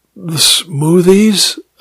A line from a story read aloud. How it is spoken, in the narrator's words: I sighed